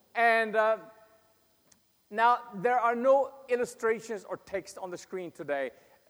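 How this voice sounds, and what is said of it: Swedish accent. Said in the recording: “this Swedish accent”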